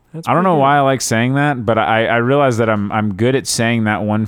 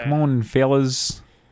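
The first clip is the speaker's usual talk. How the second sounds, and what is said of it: Good Australian accent impression. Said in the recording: “That's a pretty good Aussie impression.”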